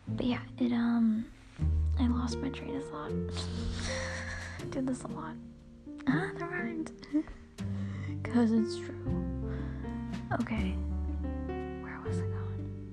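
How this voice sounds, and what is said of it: Quiet, hushed weird voice. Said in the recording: “I'm talking in a weird voice because I'm trying to be like quiet”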